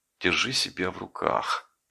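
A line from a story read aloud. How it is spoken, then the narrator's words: Quiet, to oneself. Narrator (Russian): тихо сказал я себе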